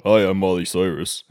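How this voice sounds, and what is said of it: Deep, manly imitation of another's voice. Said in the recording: “my Miley Cyrus impression ... she has a deep voice ... this is a man voice ... she sounds like a grandpa”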